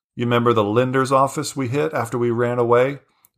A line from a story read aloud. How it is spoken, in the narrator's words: Varin asked